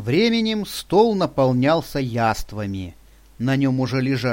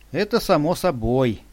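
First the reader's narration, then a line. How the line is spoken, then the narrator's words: Sad sigh. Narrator (Russian): печально вздохнул Сергей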